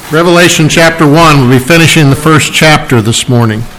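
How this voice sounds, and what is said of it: Hoarse, partly lost voice. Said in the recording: “my voice is a little gone. My sinuses were not being nice to me last couple days”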